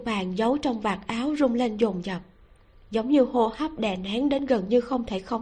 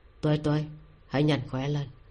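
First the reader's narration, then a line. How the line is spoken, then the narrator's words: Deep, steady, hoarse, soft call. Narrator (Vietnamese): giọng nói trầm ổn của Ninh Ân, khàn khàn khẽ gọi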